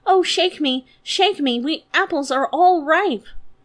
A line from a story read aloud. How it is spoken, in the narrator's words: It cried out